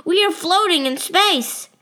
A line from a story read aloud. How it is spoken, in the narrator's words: yell